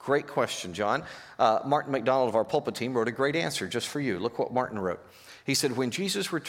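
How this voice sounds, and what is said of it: Usual voice. Nothing is said of it.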